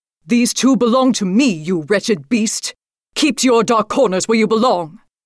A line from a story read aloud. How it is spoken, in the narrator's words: yelled